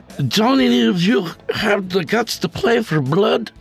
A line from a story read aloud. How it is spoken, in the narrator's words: Jorge slurred to the group after taking his fifth shot of Jack